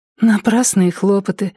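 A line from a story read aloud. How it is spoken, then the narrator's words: Sighing. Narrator (Russian): вздохнула она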